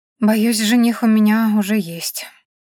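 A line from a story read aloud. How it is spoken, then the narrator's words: Gloomy, joyless. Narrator (Russian): мрачно и совершенно без радости произнесла я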